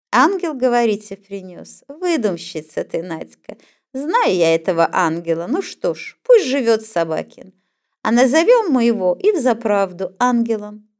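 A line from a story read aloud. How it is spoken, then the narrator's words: Said, then laughing. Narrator (Russian): сказал Ваня, засмеялся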